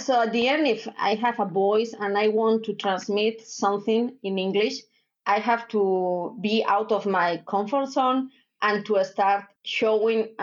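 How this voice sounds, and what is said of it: Strong Spanish accent in English. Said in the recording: “this strong Spanish accent dealing in English”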